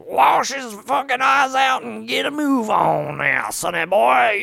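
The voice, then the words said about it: Exaggerated Southern US accent. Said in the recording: “he has this crazy fucking southern accent”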